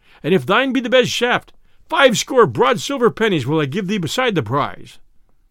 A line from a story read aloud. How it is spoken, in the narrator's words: cried the sheriff